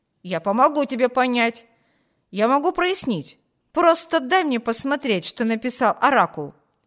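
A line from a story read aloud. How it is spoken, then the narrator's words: Exclaimed. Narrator (Russian): воскликнул Виберт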